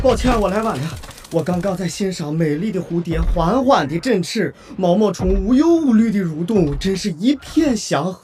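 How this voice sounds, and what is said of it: Speaks with a regional accent. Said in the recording (Chinese): “那你怎么说话带口音呢 ... 听你说话挺顺耳的 ... 但你那个口音确实有点……”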